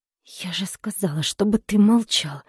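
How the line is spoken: Hissing. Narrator (Russian): прошипела Поля

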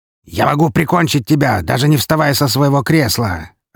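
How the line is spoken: Barked. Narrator (Russian): рявкнул он

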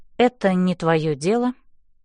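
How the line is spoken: Calm reply. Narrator (Russian): спокойно отвечаю я

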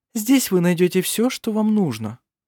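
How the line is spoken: Desperate ingratiating coo. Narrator (Russian): проворковала Феодора, делая последнюю отчаянную попытку расположить его к себе

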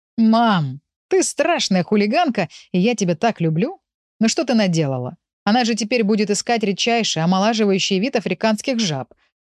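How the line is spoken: Choking with laughter. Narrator (Russian): давился от хохота Павел

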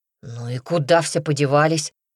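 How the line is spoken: Surprised grumble. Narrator (Russian): удивленно проворчал Никита

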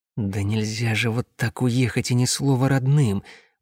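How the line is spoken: Muttered, squad commander. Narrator (Russian): пробормотал командир отряда

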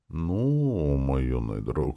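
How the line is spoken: Mysterious drawn-out voice. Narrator (Russian): загадочно протянул принц

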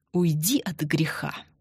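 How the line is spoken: Hissed through teeth. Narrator (Russian): сквозь зубы прошипел Андрей

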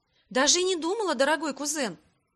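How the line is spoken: Exclaiming. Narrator (Russian): воскликнула я

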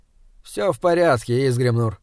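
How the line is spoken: Tired. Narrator (Russian): устало сказал Эулер

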